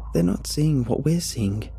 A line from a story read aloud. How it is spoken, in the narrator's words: she murmurs, to no one in particular